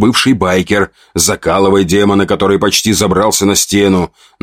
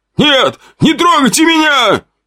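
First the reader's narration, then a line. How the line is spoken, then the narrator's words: Frightened shout. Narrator (Russian): прокричал тот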